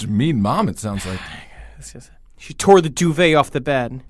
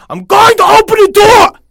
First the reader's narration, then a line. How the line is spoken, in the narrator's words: the mother suddenly shouted